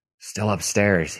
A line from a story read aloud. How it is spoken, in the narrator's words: he gasped